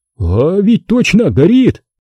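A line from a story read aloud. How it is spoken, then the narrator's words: Bewildered exhale, soldier behind. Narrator (Russian): растерянно выдохнул кто-то из бойцов за спиной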